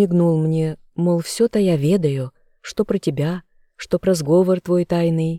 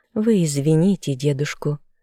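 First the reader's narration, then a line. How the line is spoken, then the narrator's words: Affectionate. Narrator (Russian): сказала она ласково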